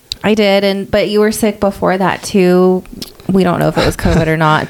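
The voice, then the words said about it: Strained, struggling voice. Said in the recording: “my voice is struggling a little bit. It must be like post-COVID something.”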